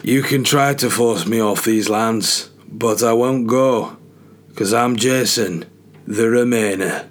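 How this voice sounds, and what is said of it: Game of Thrones-style put-on accent. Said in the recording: “Decent accent, that, by the way. Having never watched Game of Thrones in my life.”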